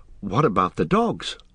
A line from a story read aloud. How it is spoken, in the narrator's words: asked Frodo anxiously